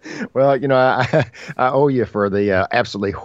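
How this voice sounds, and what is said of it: Usual voice. Nothing is said of it.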